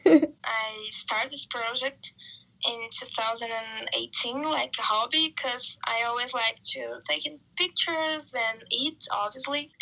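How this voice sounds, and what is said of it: Brazilian accent in English. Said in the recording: “from our accent, we're from the same place ... in Brazil, where we're both from”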